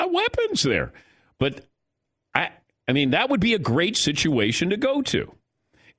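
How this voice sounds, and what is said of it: Usual voice. Nothing is said of it.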